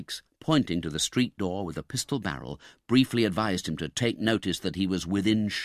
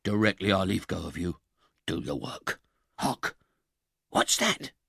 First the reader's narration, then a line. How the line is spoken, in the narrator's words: whispered the other man